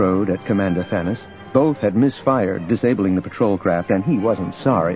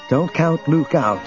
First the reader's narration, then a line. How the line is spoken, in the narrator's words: Leia said tightly